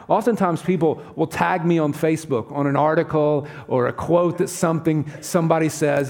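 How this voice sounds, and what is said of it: Southern US accent. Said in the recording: “I could tell by his accent. He's from the South.”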